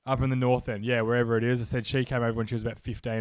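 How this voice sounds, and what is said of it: Australian accent. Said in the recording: “people can probably tell I'm not from the UK. I'm from Australia in Melbourne. ... My accent's a little bit different.”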